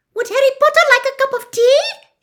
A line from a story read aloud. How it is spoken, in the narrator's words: he squeaked loudly over Winky's sobs